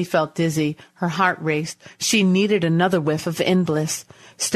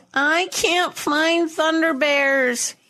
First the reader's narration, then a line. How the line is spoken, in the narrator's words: he whined